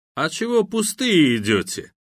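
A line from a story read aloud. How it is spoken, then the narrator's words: Mocking questioning. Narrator (Russian): насмешливо продолжил допрос ваххабит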